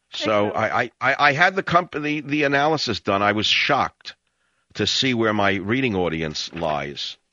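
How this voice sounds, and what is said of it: New York accent, excited delivery. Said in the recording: “this guy who has a New York accent who gets so excited”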